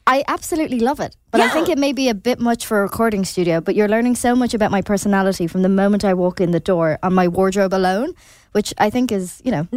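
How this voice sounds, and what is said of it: Lovely accent. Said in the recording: “her lovely accent”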